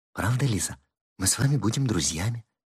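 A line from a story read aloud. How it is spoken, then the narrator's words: Touched whisper. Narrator (Russian): шепнула ей на ухо, растроганная этой лаской Зинаида Павловна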